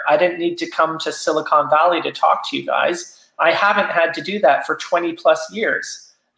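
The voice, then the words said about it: Slight Canadian accent. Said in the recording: “I think I detect like a slight Canadian accent.”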